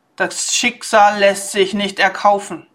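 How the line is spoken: Loud and clear. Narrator (German): antwortete Umeko laut und deutlich

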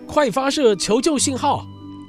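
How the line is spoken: Shouting. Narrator (Chinese): 霍格大声叫道

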